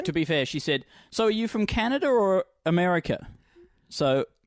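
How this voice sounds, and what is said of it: Broad Australian accent. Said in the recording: “you have quite a broad Australian accent ... an unpleasantly Australian accent to listen to ... Distressingly Australian ... Confrontingly and disturbingly.”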